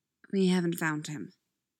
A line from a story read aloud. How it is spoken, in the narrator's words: says softly